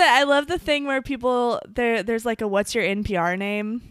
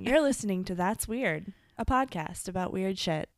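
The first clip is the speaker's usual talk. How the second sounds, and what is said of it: Soft public radio announcer voice. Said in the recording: “It's like a little light radio. That's my NPR voice. ... You nailed it.”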